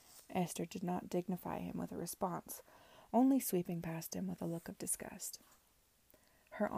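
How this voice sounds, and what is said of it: Usual voice. Nothing is said of it.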